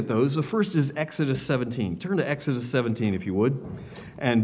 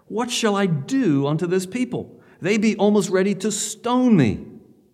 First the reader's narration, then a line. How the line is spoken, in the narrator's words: Moses cried out to the Lord, saying